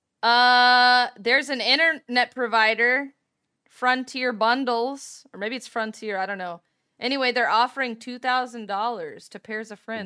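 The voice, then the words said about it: Yelling excitedly. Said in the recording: “Are you yelling? ... you're yelling.”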